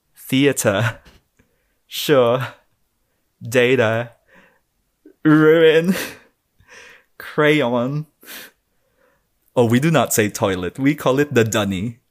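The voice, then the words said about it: Full Australian accent. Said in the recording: “full Australian accent”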